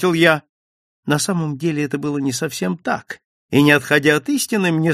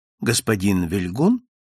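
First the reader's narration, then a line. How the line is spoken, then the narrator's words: Respectful man's voice. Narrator (Russian): бесцветная мужская фигура, произнесшая почтительным тоном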